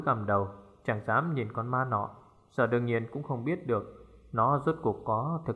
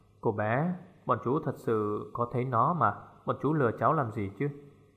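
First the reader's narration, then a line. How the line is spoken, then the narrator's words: Gentle, lightly laughing. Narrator (Vietnamese): Trung Liêm cười nhẹ, dịu dàng nói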